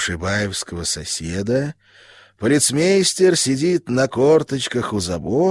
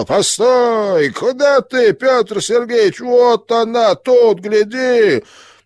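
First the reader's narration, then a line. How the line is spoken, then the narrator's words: Exasperated shout. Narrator (Russian): Полицмейстер не выдержал и закричал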